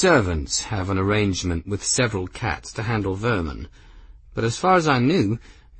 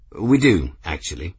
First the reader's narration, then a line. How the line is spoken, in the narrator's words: Benedict said, cutting over Gwendolyn smoothly